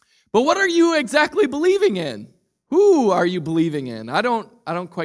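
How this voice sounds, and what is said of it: Usual voice. Nothing is said of it.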